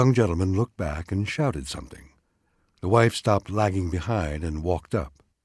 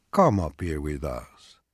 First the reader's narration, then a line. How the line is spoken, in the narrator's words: Peduzzi called tenderly